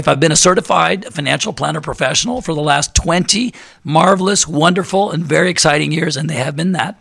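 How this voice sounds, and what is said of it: Strained, failing hoarse voice. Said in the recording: “I am playing hurt, ladies and gentlemen. In case you haven't noticed, my voice is about to go. ... you guys have endured my voice this whole show”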